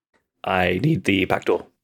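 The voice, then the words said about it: Deep character voice. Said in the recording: “Such a deep voice for such a small man.”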